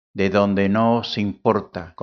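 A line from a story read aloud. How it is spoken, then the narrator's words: Plain. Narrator (Spanish): contestó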